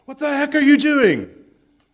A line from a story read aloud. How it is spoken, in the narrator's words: a bunch of soldiers shouted down to the man in the canoe